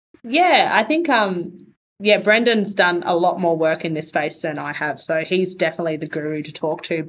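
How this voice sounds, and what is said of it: Australian accent. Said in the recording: “I love an Aussie accent too, though, so I'm loving this right now.”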